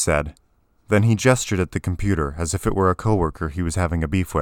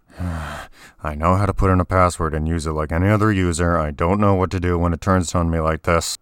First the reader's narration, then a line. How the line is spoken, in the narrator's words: grumbled